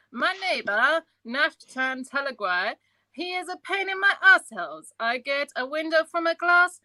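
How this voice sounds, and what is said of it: Comic Borat character voice impression. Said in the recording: “your impression was mint ... the Borat impersonation”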